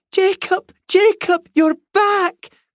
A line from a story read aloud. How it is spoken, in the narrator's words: cried Olive